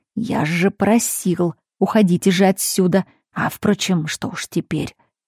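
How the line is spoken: Hissing. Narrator (Russian): Феликс прошипел

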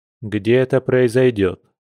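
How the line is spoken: Calm question. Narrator (Russian): спокойно спросил Альфа

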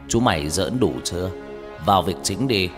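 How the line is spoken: Stern, loud. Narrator (Vietnamese): Ông mười họa nghiêm giọng nói lớn

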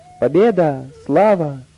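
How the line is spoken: Joyful exclamations. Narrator (Russian): пастухи и пастушки радостно восклицая

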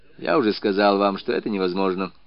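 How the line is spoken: Dry reply. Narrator (Russian): сухо отвечал следователь

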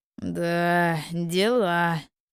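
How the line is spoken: Young man's drawl. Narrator (Russian): протянул парень

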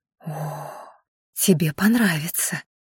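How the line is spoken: Breathy exhale. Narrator (Russian): выдохнула она

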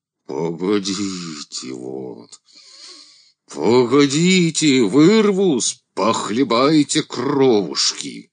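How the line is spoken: Burring voice. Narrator (Russian): картавый голос

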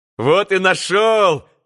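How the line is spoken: Joyful reply. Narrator (Russian): Радостно отозвался еще кто-то

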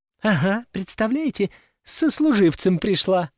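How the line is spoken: Laughing. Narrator (Russian): рассмеялись подруги

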